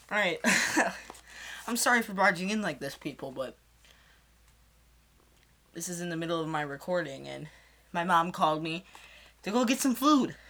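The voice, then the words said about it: Out of breath, panting speech. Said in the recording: “I'm out of breath from running.”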